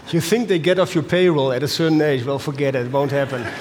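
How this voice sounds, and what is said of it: Dutch accent. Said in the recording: “as you can hear from my accent, I'm a Dutchie”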